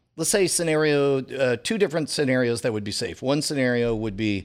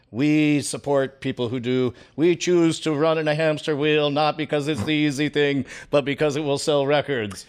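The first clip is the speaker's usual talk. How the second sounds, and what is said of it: Put-on accent, done well. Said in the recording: “I was going to tell you to do the accent, but you just did another accent. So yeah, I feel like you nailed it.”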